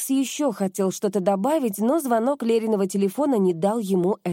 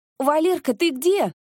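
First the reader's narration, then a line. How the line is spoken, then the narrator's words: Excited, agitated sister. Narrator (Russian): Голос сестры звучал возбужденно и, если не сказать, взволнованно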